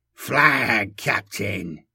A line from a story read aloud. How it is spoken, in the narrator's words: he wheezed, straining his augmetic vocal cords